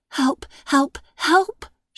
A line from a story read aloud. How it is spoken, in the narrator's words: she whispered as she ran